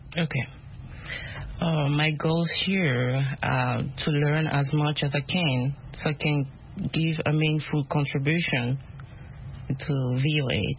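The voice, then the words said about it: Speaks English with an accent. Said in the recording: “My accent. ... we love accents, we all have accents.”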